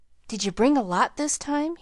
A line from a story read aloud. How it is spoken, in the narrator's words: he asked anxiously